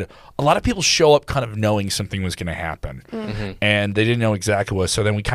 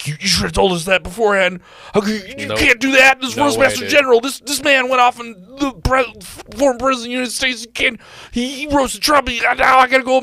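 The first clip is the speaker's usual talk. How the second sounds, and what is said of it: Imitates a complaining comic's voice. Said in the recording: “That's a good impression of the voice that I have in my head whenever a comic gives me shit about the show”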